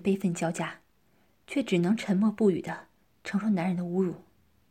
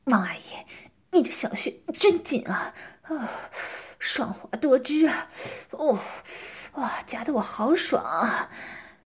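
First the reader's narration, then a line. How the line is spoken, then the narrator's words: Panting. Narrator (Chinese): 张昌一边抽插一边喘息道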